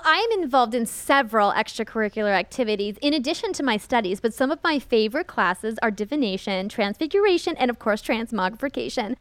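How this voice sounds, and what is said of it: American accent. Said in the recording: “you have an American accent”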